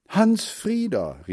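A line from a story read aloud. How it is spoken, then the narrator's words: Called out. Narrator (German): rief Mutter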